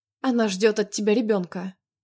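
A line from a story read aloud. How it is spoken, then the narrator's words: Calm, mechanical, detached. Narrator (Russian): произнесла спокойно, механически, как будто не я вовсе произнесла вслух эти слова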